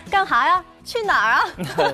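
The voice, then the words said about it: Put-on Northeastern Chinese accent. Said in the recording (Chinese): “这东北话真的是太有感染力了……真的是带的满屋子都是东北味儿”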